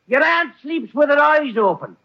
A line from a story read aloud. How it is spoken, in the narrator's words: he yells